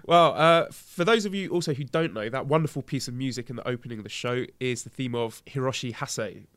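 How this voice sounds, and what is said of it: British accent. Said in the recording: “people seem to like the accent ... just by being British”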